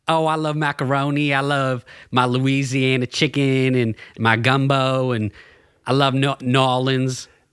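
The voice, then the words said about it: Southern accent, movie character voice. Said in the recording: “Can you do a Southern accent? ... Sling Blade?”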